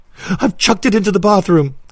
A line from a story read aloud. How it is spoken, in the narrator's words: he gasped